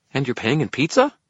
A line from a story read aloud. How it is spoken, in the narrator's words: Toot asked, his tone hopeful